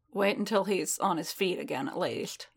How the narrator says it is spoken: Din muttered

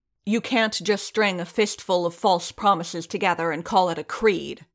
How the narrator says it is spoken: the armorer snarled, recovering some

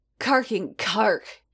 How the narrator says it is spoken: he snarled

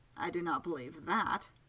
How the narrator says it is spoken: Segunda said dryly

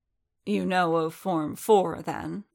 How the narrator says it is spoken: Kukrook growled

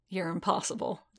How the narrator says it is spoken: Din muttered

